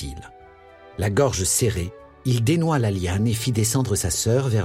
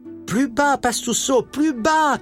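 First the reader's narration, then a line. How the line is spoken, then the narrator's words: Shouted. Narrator (French): cria-t-elle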